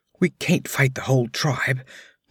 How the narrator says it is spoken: whispered Balthus

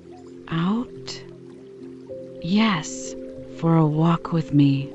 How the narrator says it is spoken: repeated in the old low voice

